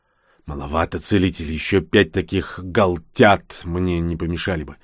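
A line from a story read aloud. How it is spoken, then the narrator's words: Grumbling. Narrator (Russian): проворчал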